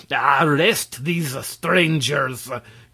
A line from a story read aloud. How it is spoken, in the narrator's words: commanded Quitoful, in a voice like a roar